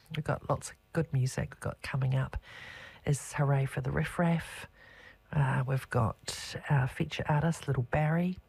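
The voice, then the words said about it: Slightly rough, hoarse voice. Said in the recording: “I've had a bit of the pox this week. I've had a bit of lurgy, and so my voice is a little bit rough.”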